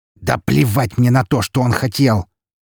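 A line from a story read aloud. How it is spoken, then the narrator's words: Angry grating voice. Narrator (Russian): зло проскрежетал Григорий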